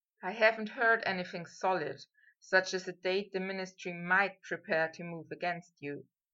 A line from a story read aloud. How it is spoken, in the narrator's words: Harry said softly